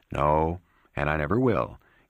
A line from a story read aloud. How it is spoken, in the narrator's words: in a sympathetic voice